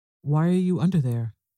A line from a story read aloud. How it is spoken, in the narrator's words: Louise asked